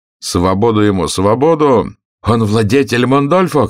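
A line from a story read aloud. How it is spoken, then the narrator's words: Tall man shouting. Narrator (Russian): кричал какой-то высокий человек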